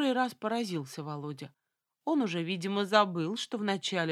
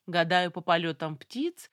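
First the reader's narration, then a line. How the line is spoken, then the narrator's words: Involuntary laugh. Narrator (Russian): засмеялась я невольно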